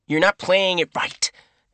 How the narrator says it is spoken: snapped

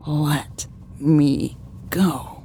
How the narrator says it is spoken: whispered angrily

